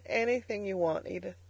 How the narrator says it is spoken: he said brokenly

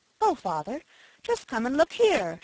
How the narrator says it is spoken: she exclaimed

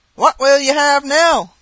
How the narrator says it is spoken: cried he

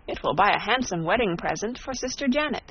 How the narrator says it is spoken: she exclaimed

